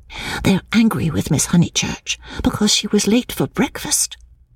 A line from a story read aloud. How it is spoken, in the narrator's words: whispered Minnie